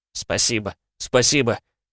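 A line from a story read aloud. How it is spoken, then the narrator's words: Officer muttering. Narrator (Russian): бормотал участковый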